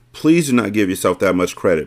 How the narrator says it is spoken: Mia Moore replied quickly

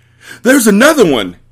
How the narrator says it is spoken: gasped Mr

